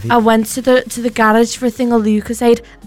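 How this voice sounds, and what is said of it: Imitates another person, Liverpool-sounding accent. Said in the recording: “That was an interesting accent. Didn't know Cheryl Cole was from Liverpool.”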